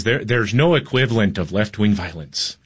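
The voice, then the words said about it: Poorly done Irish accent imitation. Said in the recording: “he's a little Irish guy ... That's a terrible accent.”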